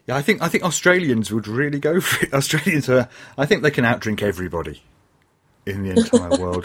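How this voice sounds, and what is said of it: English accent. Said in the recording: “I've got an English accent”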